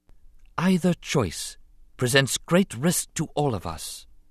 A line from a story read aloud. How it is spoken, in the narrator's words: she said softly